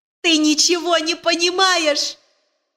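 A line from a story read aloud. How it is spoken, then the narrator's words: Screaming even louder. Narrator (Russian): еще сильнее вопил Джон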